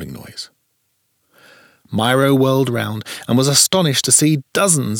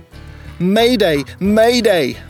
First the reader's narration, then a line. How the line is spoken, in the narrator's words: Myro called desperately into his radio